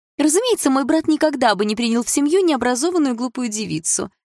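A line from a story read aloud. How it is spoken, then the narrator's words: High-pitched confirming voice. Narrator (Russian): высоким голосом подтвердила Реджина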